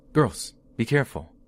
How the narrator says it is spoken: he suddenly exclaimed

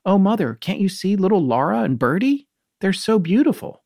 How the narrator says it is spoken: she exclaimed

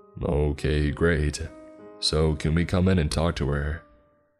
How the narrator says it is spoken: C asked

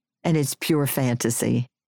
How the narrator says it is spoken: I said, laughing

